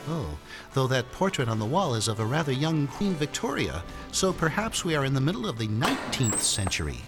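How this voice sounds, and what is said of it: American accent. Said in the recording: “I take it from your accents that you're Americans.”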